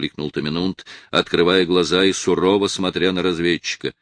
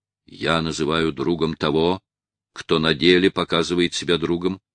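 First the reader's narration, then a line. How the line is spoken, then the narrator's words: Calm and firm. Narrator (Russian): ответил молодой вождь спокойно и твердо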